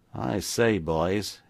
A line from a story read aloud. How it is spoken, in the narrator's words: ejaculated the ex-convict with an uneasy laugh, half comic, half bewildered